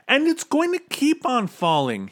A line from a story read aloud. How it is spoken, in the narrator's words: he shouted